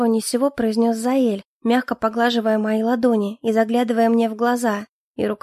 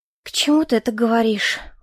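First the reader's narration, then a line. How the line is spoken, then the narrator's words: Weary sigh. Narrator (Russian): устало вздохнула я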